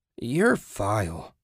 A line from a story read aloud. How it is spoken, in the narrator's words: Susan moaned